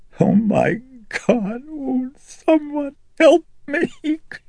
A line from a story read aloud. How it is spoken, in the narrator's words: Chris moaned as, sobbing convulsively